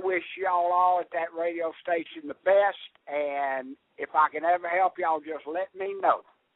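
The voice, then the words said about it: Southern American accent. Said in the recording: “now I do know about the accent ... talking to my daddy just makes me get that southern accent”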